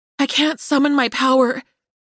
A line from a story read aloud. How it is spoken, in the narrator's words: Darcy breathed, her voice tinged with fear